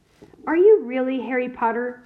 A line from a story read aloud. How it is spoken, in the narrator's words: Ron blurted out